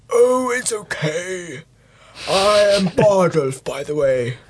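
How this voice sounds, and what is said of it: Old man character voice. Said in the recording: “do your old man voice ... that was quite a good old man voice”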